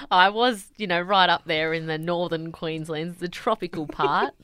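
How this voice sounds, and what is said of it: Slight broad Australian Bogan accent. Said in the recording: “You have a little bit of a Bogan accent ... your ochreness has gone up”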